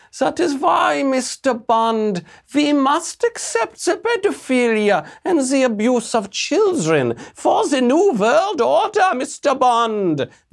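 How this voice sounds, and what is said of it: Imitated Bond villain accent. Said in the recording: “sounds exactly like a Bond villain... There's a beautiful accent.”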